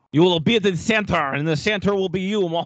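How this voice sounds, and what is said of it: Cheeky 1940s movie French accent. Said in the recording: “I assume what Yanic Perreault sounds like ... impeccable, right? Cheeky, Impe- cheeky 1940s movies act French accent ... if you close your eyes, you just you swear it'd be him”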